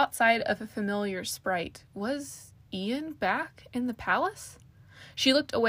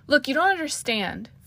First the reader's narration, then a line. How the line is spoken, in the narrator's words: Farrell snapped